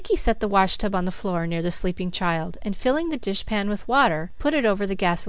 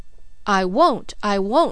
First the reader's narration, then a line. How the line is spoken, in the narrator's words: she cried